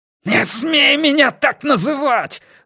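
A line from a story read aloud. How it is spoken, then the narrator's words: Howling. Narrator (Russian): взвыл Уэртон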